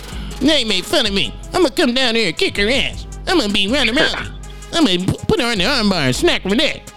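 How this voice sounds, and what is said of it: Imitates another person's voice. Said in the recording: “my Ronda Rousey impression”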